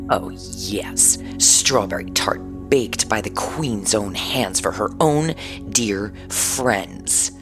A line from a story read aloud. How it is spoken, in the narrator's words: said Malvolia sneeringly